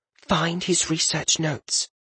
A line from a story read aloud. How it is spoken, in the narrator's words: Voraine leaned close to him, whispering in his ear